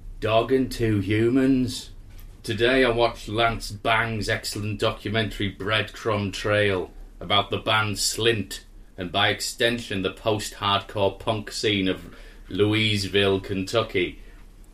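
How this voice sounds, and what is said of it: Flat, bored, unenthusiastic voice. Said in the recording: “someone who's got no enthusiasm for life ... someone waiting for a bus and then he's waiting me wait for half an hour”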